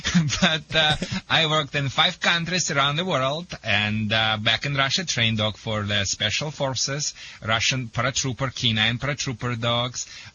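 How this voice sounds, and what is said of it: Russian-accented English. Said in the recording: “sorry first for my accent ... I am originally from the Soviet Union”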